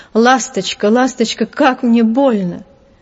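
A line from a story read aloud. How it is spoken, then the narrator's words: Moaning, indistinct cry. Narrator (Russian): Он застонал и невнятно крикнул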